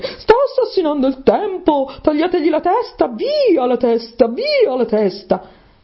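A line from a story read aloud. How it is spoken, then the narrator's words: Queen shrieking. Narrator (Italian): la regina saltò su a strillare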